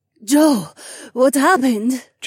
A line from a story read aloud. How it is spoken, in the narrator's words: Jessamine gasped